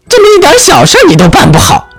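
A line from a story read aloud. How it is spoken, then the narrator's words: Screaming. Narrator (Chinese): 妈妈尖叫着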